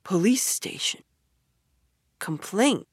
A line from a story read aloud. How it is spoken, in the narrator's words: murmured Toad dreamily